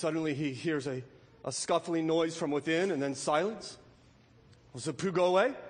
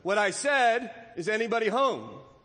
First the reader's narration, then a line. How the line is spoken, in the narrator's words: called out Pooh very loudly